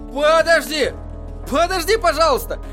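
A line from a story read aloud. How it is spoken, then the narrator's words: Shouted. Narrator (Russian): крикнул Эдди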